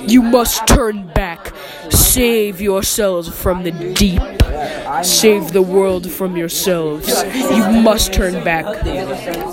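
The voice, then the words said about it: Booming, microwave-like creature voice. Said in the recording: “booming into the hull of the needle ship in a microwave voice.”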